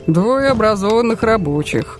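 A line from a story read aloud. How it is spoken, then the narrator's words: Mocking. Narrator (Russian): насмешливо сказал сын Толстого Дмитрий Львович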